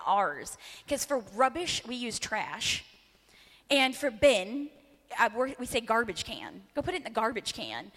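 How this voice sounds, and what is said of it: American accent. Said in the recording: “our American accent”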